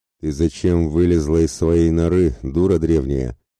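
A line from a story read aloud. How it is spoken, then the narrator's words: Menacing rumble. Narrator (Russian): Грозно пророкотал между тем Мельванес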